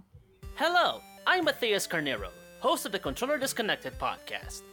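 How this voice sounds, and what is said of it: Unusual foreign accent. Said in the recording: “my weird accent”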